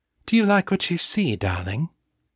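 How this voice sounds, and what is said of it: Posh upper-class English accent. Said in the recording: “deliberately let his voice return to the posh, upper-class accent he had abandoned more than 10 years ago ... His voice was not an exact match for Morgan's, but it was awfully close.”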